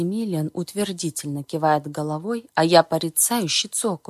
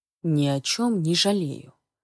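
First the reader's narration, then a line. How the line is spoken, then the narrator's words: Low voice. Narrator (Russian): отвечает своим низким голосом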